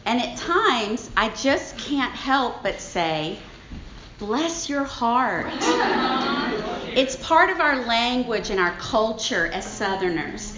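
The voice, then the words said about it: Strong Southern US accent. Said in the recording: “my strong accent ... I'm a Southern Belle. I'm from Baton Rouge, Louisiana.”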